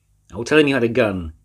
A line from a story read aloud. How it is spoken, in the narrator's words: he yelled